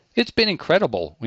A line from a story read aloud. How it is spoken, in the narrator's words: Winkler says